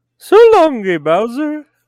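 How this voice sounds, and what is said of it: Put-on Italian accent. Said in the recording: “my my Italian impression”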